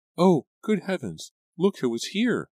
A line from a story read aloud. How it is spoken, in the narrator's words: Liza exclaimed